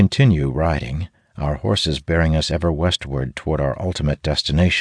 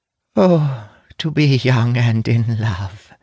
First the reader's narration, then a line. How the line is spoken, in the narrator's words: the mage Sira says wistfully